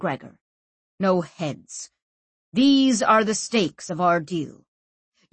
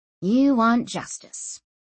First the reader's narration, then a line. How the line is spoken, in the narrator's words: she said, sighing